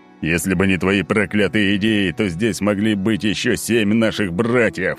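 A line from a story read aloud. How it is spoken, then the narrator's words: Angry barking. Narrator (Russian): рявкнул Олимпий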